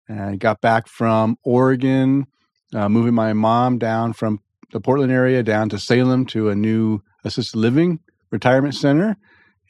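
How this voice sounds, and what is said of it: Tired-sounding voice. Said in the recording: “I am tired. If you hear it in my voice”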